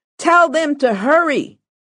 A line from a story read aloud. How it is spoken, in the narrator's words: Gloria yelled back